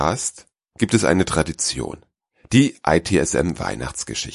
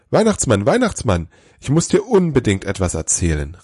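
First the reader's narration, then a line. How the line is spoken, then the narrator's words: Excited call. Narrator (German): rief er aufgeregt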